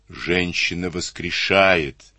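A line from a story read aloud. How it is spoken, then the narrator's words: Plain. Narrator (Russian): сказал Клюгинау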